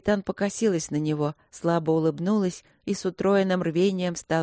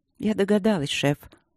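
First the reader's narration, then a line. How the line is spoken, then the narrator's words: Calm reply. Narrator (Russian): отозвалась Дробжик спокойно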